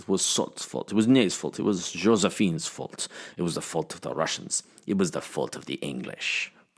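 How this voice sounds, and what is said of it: French accent drifting toward Russian. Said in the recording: “I would be saying it in a French accent ... That actually started French and sounded Russian by the end of it.”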